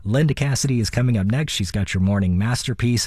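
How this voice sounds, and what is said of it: Raspy voice. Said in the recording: “you're not going to have to listen to this raspy voice anymore ... I don't sound like this”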